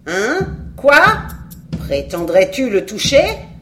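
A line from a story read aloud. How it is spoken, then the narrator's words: Screamed. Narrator (French): hurla-t-elle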